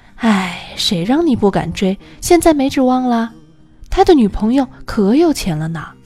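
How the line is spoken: Regretful sigh. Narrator (Chinese): 室友惋惜的叹气

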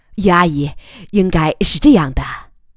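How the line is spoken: Thoughtful smiling explanation. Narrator (Chinese): 他认真思索片刻，笑着向余乐水解释

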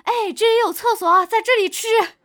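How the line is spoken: Shouting. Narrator (Chinese): 我朋友啊，对着我大喊

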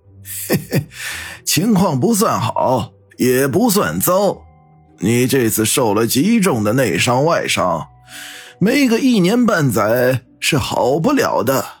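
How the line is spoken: Laughing. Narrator (Chinese): 胡神医笑着说道

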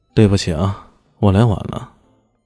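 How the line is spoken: Flat, indifferent tone. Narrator (Chinese): 淡淡的说道

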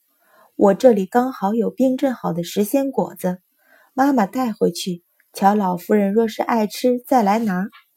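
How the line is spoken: Smiling. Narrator (Chinese): 阮云欢笑了笑，说道

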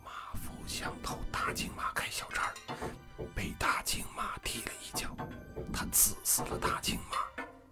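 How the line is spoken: Very low voice. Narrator (Chinese): 祝志强的声音也极低

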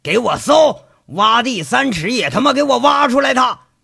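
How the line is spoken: Furious shouting. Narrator (Chinese): 赵三刀气急败坏地喊着

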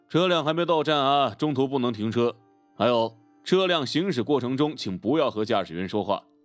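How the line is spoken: Flat, indifferent. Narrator (Chinese): 公车司机淡淡的说道

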